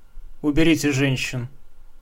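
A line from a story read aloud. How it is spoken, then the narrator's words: Quiet but clear. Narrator (Russian): сказал тихо, но внятно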